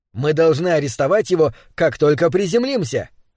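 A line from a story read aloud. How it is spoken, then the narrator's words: Fervent exclamation. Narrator (Russian): с жаром воскликнул Альберт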